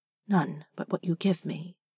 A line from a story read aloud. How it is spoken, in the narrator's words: Jareth said softly